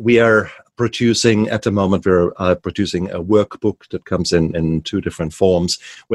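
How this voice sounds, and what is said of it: German accent. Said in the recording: “the funny German accent”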